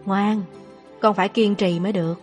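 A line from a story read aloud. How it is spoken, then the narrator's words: Soft, tearful voice. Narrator (Vietnamese): Lão thái thái mắt cũng đỏ hoe, khẽ nói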